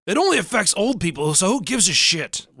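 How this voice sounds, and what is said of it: Impersonates a Republican man. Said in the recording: “Here's my impersonation of a Republican man.”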